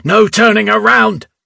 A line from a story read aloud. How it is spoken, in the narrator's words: yell